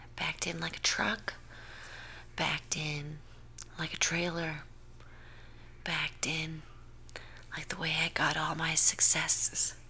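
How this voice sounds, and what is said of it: Whispering. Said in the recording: “I'm whispering. I don't know why. Normally, I can speak at a regular volume, but you know what? Sometimes you just want to whisper.”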